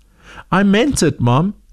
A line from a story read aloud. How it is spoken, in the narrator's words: said Zoe